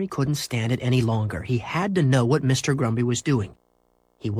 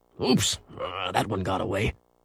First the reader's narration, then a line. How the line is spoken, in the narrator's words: Henry heard him mutter